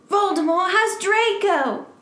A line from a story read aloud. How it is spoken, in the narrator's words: We shouted at the same time